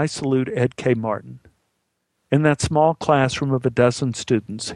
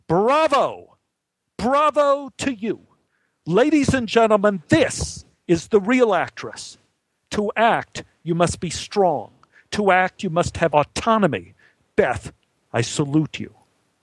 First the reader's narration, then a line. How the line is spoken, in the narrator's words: took a breath, and then he raised his arms to the ceiling and yelled